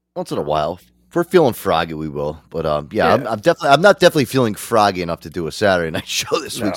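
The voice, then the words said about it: Sick, under-the-weather voice. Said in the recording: “I'm still kind of like under the weather. You can kind of probably hear it in my voice.”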